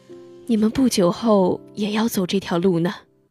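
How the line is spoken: Worried sigh. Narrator (Chinese): 他害怕孩子们守不住心底的纯真，他叹道

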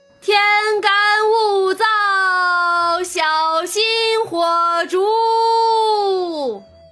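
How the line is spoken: Night watchman calling out. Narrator (Chinese): 打更人喊道

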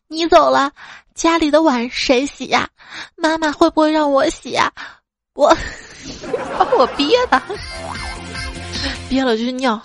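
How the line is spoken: Sobbing. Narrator (Chinese): 他抽泣着，接着说

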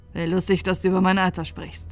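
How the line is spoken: Young man grumbling mockingly. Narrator (German): murrte der junge Mann mit einem spöttischen Lächeln

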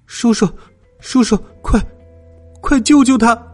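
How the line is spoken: Angry. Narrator (Chinese): 络腮胡子很生气的说

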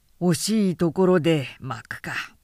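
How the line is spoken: Muttered. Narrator (Japanese): と七十郎はつぶやいた

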